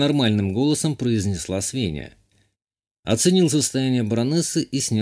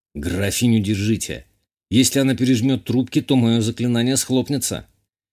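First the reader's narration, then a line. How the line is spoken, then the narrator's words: Slightly nervous exclamation. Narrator (Russian): Чуть нервно воскликнул я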